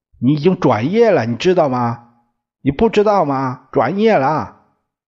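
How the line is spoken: Shouted question. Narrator (Chinese): 大哥……喊着问

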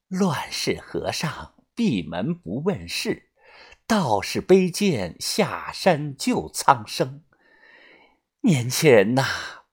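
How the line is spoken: Slight smile. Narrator (Chinese): 小唐奶奶露出了一丝微笑，说道

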